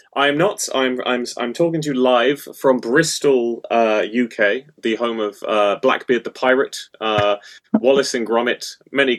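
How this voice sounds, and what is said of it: British accent. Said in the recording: “A lovely accent. Clearly, you are not from America.”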